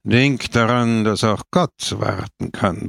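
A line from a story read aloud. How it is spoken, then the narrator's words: Grumbled. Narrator (German): brummte Don Camillo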